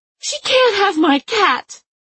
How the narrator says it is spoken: Franny cried

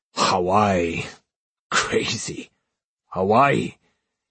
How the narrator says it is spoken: Tawake drunkenly smacked my head and kept muttering

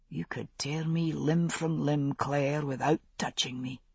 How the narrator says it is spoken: he whispered

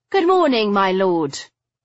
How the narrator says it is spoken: I called brightly

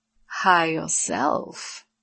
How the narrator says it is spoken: Lorelei purred

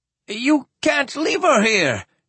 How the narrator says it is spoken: he exclaimed in anguish

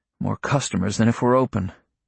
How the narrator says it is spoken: muttering

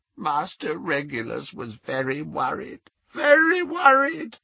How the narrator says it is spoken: croaked Creature

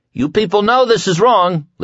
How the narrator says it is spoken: Larry cried, and his voice, trained by years of singing, rolled out of his chest with surprising strength

